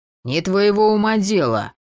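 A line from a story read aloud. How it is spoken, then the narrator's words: Said through teeth. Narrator (Russian): процедил Косой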